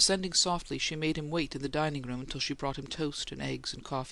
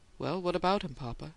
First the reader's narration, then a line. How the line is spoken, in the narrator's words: she asked, calmly enough